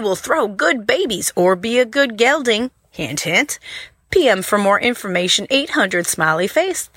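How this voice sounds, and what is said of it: Attempted Southern US accent. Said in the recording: “Which southern state do you think that accent was there ... good attempt, though. That was a good try.”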